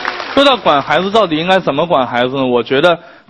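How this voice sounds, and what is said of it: Usual voice. Nothing is said of it.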